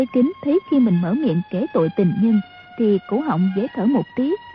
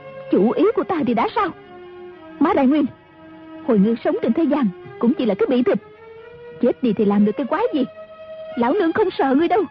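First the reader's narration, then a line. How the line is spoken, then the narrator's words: Angry speech. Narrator (Vietnamese): Mã phu nhân giận dữ nói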